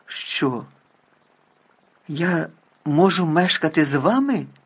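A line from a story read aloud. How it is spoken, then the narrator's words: Exclaimed. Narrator (Ukrainian): вигукнув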